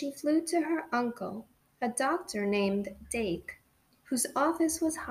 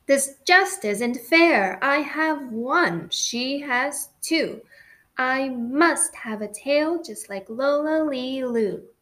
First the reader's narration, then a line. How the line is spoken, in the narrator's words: Then one day she got awfully mad and she shouted